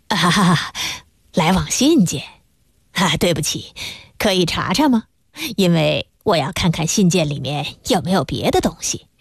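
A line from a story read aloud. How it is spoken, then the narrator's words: Tactful, smiling. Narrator (Chinese): 哈朗先生很知趣地微笑着说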